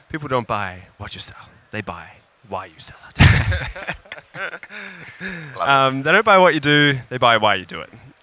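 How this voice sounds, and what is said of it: Imitates another person's voice. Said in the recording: “your Simon Sinek impersonation.”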